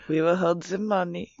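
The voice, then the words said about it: Put-on Swiss accent. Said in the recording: “like your Swiss impression... Very impressive.”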